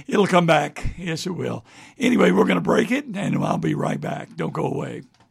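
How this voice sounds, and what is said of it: Strained, hoarse, fading voice. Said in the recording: “I'm about to lose my voice this morning”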